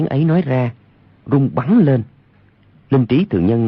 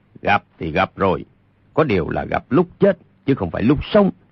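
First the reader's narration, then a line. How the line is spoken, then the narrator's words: Cold. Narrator (Vietnamese): Linh Trí Thượng Nhân lạnh lùng nói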